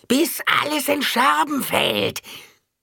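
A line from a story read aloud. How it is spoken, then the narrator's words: Shrieking inner voice. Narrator (German): Irgendwo in ihrem Kopf kreischte jemand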